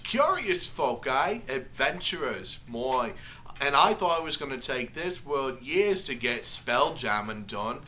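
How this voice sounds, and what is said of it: Strong put-on Australian accent. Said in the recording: “before they had a British accent, but that, now they're super Aussie.”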